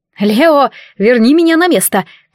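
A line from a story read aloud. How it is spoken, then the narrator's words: Woman shouting. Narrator (Russian): кричала стихийница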